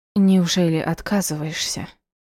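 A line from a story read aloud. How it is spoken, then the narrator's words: Tearful whisper. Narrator (Russian): прошептала она, чувствуя, как по щеке скатывается слезинка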